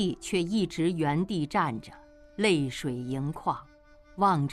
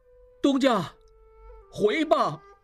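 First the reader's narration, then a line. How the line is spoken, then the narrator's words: Calling back while walking. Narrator (Chinese): 小马掌柜边走边回头喊道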